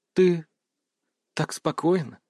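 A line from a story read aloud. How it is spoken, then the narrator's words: Quiet. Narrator (Russian): тихо сказала она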